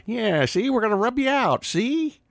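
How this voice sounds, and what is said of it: 1920s gangster accent. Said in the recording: “I don't think you were roaring in the 20s ... Bugsy ... right in the wheelhouse there of your accent”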